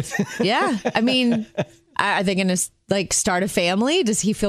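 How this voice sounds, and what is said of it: Usual voice. Nothing is said of it.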